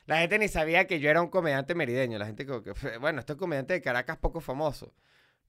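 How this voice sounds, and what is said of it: Subtle Mérida Venezuelan accent. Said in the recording (Spanish): “Tú así hablas con acento... es como un merideño que se quiere ocultar”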